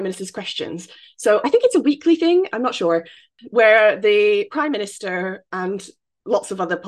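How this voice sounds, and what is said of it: Usual voice. Nothing is said of it.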